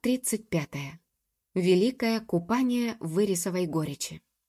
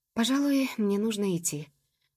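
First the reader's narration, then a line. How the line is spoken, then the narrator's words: Glum. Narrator (Russian): уныло сказала Джуб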